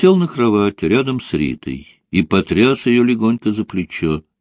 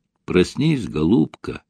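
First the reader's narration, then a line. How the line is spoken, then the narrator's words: Whisper in the ear. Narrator (Russian): прошептал он в ее ушко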